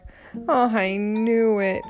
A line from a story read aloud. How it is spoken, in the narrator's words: groaned Arnold